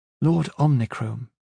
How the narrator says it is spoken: she said, her voice even

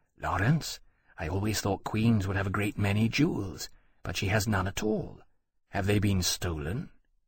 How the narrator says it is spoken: he whispered

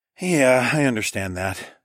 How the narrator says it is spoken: I sighed

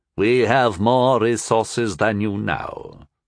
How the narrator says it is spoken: the leader said evenly

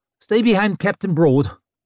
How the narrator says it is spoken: she snapped at him

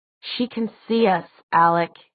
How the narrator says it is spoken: he said

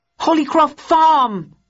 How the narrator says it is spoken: Bowden shouted into the wireless

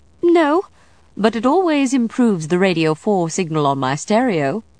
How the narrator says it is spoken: Linda said brightly

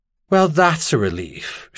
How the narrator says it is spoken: Charlene said dryly

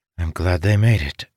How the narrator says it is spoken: thought, sighing in relief

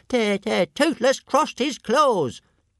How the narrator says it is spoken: With a shriek

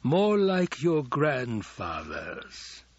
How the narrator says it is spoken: Hawat rasped

